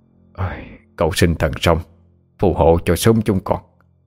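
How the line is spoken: Old man muttering. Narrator (Vietnamese): Ông Hà ... lẩm bẩm

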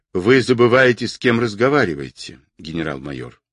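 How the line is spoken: Dry, curt. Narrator (Russian): сухо сказал Орлов

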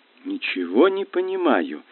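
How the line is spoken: Confused mutter. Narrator (Russian): растерянно пробормотала я

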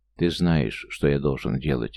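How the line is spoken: Quiet reply. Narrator (Russian): тихо ответил Лето

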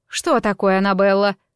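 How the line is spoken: Irritated question. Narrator (Russian): раздраженно спросила учительница

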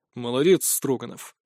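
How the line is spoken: Dry congratulation. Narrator (Russian): сухо поздравил

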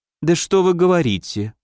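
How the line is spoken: Very sweet, gentle. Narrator (Russian): ласково-ласково произнесла Сабля

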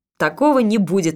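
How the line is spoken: Laughing. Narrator (Russian): рассмеялся он

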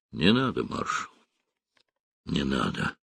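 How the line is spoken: Hoarse voice. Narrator (Russian): хриплым голосом сказал Белозеров

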